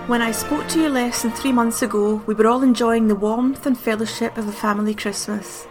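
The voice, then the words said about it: Glasgow accent. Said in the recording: “not in the Queen's received pronunciation. It will be done in my Glasgow accent.”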